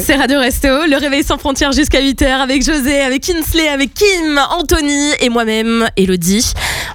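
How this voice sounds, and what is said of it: Slight southern French Bordeaux accent. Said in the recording (French): “Il y a un petit accent là, non? ... à la base, je viens du sud ... Je viens de Bordeaux. Et à Bordeaux, il y a un sale accent.”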